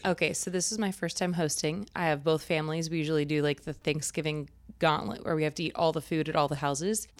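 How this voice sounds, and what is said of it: Slightly raspy voice. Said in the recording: “You're sounding a little raspy here.”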